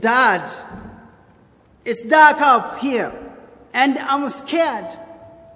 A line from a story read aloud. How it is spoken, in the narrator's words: he shouted down from the bedroom, said